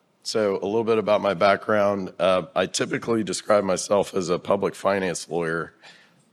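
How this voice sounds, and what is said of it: Slightly hoarse, strained voice. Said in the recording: “What happened to my voice is I had a little bit of a sore throat ... my voice was actually significantly worse yesterday”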